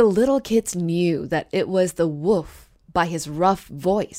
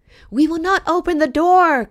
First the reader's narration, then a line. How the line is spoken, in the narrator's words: cried they